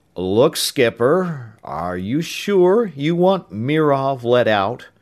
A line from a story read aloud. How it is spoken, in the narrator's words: Ames said slowly